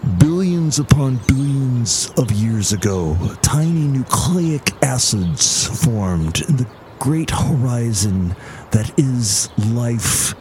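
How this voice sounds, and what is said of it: Imitates another person's voice. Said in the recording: “that was my impression of Neil deGrasse Tyson. I'm much better with Carl Sagan.”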